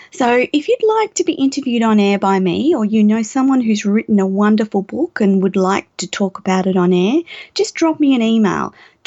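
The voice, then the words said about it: Slightly croaky, hoarse voice. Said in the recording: “My voice is a little bit croaky. ... woken up with a sore throat.”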